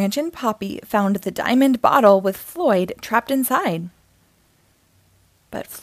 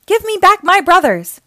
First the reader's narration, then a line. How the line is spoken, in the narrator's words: cried